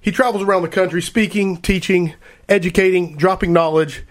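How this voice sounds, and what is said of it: Sick, out-of-breath voice. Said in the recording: “out of breath there. I'm sorry. I'm operating on Dayquil right now, so I have a nasty infection going on in my head, so if I sound weird”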